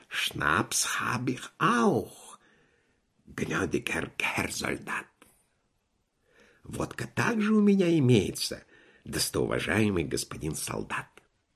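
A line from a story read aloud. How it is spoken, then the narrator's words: Whispered. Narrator (Russian): писатый торговец шепнул ему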